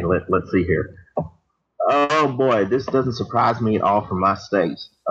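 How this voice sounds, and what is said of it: Put-on Texas accent. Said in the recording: “if you could do this in a Texas accent”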